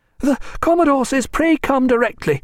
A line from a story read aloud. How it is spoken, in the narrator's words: gasped a midshipman